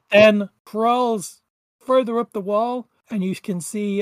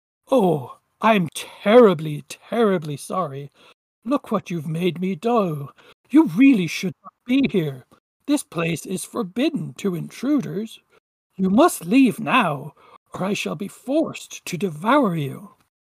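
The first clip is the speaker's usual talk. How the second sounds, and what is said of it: Polite, courteous monster voice. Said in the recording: “in this quite polite voice,”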